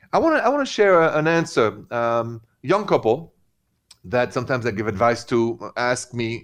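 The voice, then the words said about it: French accent in English. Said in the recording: “in French. Because that's where I'm from, actually. The accent, right?”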